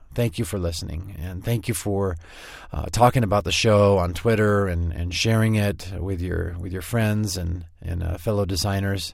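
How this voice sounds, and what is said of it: Tired-sounding voice. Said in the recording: “Can you hear the tiredness in my voice? ... I'm tired.”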